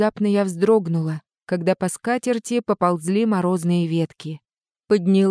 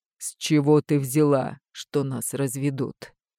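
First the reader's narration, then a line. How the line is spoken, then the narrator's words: Calm, restrained question. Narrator (Russian): Взяв эмоции под контроль, спокойно поинтересовался муж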